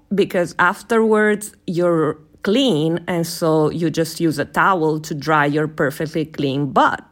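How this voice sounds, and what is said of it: Woman with Italian accent. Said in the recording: “with this accent ... people saying funny words in different accents ... an Italian woman saying perfectly clean butt”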